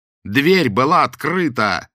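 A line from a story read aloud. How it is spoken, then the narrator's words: Yelled. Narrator (Russian): заорал Боголюбов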